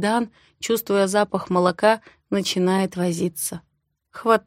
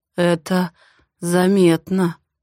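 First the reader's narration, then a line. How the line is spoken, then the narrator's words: Hoarse voice. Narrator (Russian): проговаривает охрипшим голосом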